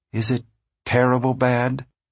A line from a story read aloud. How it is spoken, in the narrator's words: she asked a little timidly